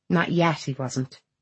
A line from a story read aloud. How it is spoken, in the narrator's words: Lucy says dryly